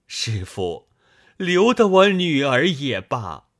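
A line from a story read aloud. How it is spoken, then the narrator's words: Crying. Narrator (Chinese): 太公哭道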